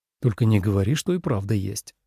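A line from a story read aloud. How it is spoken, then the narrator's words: Muttered. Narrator (Russian): пробормотал Лен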